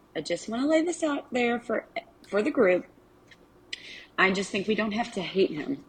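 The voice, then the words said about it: Strong Arkansas Southern US accent. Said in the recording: “My accent is a super strong Arkansas accent.”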